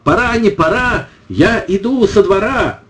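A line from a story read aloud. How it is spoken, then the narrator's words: Shouted warning. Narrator (Russian): Костик крикнул третье предупреждение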